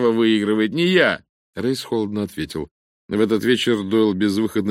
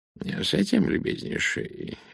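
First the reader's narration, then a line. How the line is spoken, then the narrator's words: Purring voice. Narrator (Russian): мурлычущим голосом завел Пуаро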